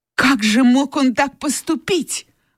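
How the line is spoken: Exclamation. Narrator (Russian): воскликнула Скарлетт

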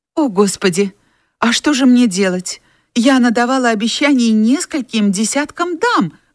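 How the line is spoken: Exclaimed. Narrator (Russian): воскликнула Скарлетт

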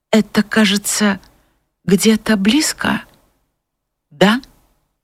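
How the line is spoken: Restrained, slightly trembling voice. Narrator (Russian): сдерживая свое волнение, она только произносила чуть дрогнувшим голосом

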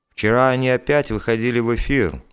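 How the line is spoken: Sudden calm report. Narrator (Russian): вдруг спокойно сообщил Поляков

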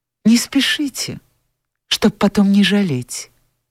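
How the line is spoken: Sad. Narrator (Russian): грустно сказала Анфиса

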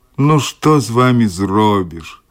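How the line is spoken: Snorting chuckle. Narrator (Russian): хмыкнул Баф

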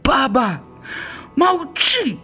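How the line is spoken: Shout. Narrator (Belarusian): крыкнул Пятрок

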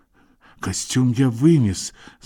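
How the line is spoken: Stammering. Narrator (Russian): сказал тот, запинаясь

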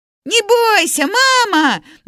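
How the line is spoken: Shouting while flying. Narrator (Belarusian): на лету крыкнуў Журка

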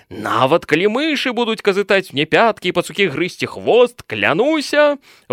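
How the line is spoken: Exclaiming. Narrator (Belarusian): выгукнуў Гаўка

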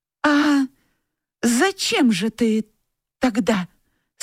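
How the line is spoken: Stammering question. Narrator (Russian): спросила Тося, заикаясь

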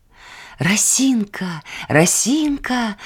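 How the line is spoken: Exclaiming. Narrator (Belarusian): выгукнуў Люцік

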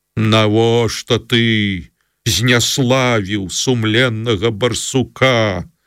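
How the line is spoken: Menacing question. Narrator (Belarusian): пагрозліва спытаў ён

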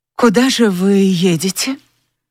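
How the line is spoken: Forced calm question. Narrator (Russian): постаралась спокойно спросить

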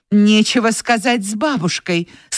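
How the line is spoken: Exclaiming again. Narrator (Russian): снова воскликнула Скарлетт

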